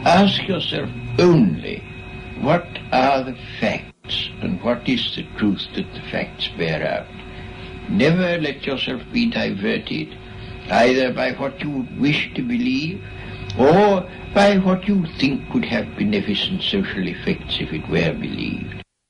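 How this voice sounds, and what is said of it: Stuffy posh English accent. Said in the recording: “That was stuffy. ... It's a posh accent.”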